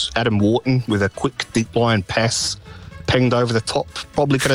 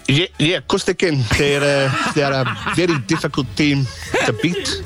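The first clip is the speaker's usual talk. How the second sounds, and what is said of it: Put-on South African accent. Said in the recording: “change the accent quickly from Australian to South African”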